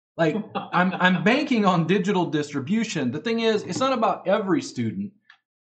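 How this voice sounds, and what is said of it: Texas twang accent. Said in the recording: “my Texas twang English”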